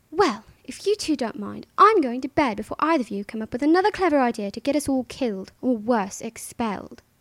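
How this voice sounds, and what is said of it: Put-on British accent, Hermione line. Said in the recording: “My very first ever line that I did in a British accent was, of course, Hermione's famous line”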